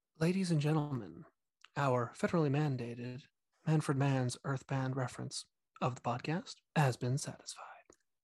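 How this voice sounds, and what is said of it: NPR announcer voice. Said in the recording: “my rockin' NPR voice”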